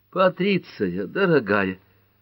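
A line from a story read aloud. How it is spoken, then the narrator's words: Moaning. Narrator (Russian): простонала Герми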